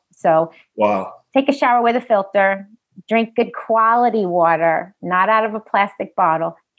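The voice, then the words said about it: New York accent. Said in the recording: “your New York accent come out”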